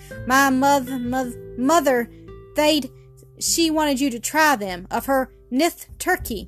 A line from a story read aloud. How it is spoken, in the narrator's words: upheld by a small boy who stammered defiantly